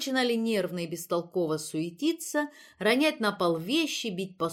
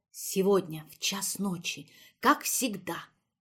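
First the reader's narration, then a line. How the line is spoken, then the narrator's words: Solemn whispered announcement. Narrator (Russian): Инеска и торжественно и почему-то шепотом объявляла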